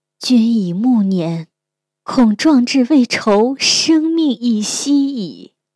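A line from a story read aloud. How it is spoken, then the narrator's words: Sighing. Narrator (Chinese): 神鸟叹道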